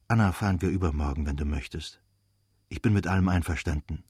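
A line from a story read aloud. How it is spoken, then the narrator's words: Quiet male voice. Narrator (German): sagte leise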